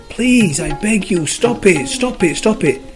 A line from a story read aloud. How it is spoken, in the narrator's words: The clay screamed